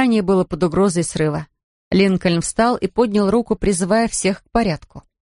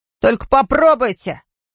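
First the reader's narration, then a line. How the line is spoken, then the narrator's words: Children shouting in chorus. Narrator (Russian): крикнул один из ребят, и его поддержал дружный хор детских голосов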